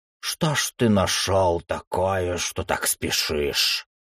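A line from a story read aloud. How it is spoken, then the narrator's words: Old man muttering. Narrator (Russian): пробормотал старый жрец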